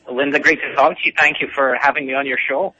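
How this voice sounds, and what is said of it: Scottish accent. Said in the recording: “Do I detect an Irish accent? ... How dare you? I'm Scottish. ... I got a little Celtic there”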